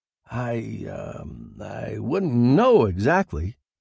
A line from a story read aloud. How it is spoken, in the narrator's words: I stammered